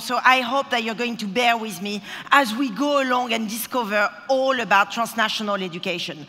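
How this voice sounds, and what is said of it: Strong foreign accent. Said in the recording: “this accent is just so strong ... it's still up and strong, and it never goes”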